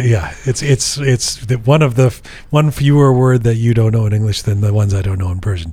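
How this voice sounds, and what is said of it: Voice not fully recovered. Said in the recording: “As you can tell, my voice is not fully recovered.”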